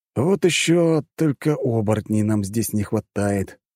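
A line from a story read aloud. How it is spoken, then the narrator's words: Sighing. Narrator (Russian): вздохнул я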